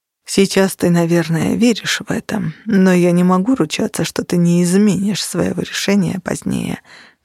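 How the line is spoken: Sighing. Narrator (Russian): вздохнул он

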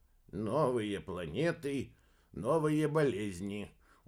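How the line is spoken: Gloomy sigh. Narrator (Russian): уныло вздохнул Бабарский

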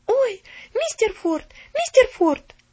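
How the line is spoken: Frightened female shout. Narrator (Russian): испуганно закричала она

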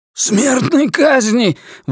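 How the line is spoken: Terrified scream. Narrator (Russian): в ужасе завопил Ллойд

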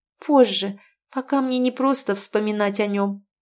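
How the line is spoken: Sad smile, laughing. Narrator (Russian): грустно улыбнулась Кэтрин, со смехом проговорив

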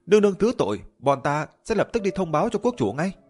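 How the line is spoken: Loud panicked yelling. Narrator (Vietnamese): Bên kia hét toáng lên

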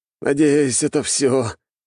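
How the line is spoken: Groan. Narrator (Russian): простонал Свет

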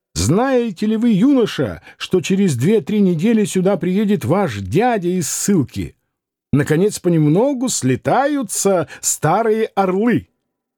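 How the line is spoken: Joyful shouting. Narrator (Russian): Катин радостно крича

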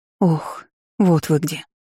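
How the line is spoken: Relieved exhale. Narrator (Russian): облегченно выдохнула

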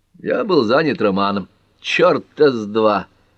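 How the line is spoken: Laughing. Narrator (Russian): засмеялась Лола

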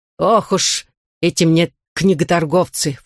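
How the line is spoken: Exasperated snort. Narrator (Russian): фыркнула миссис Лондон

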